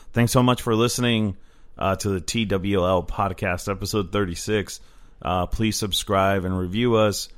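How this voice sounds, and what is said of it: Strained, fading voice. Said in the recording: “I'm losing my voice a little”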